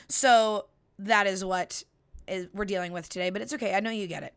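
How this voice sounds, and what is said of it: Slightly raspy, hoarse voice. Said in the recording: “My voice is a little raspy this week ... I sound like I have party girl voice”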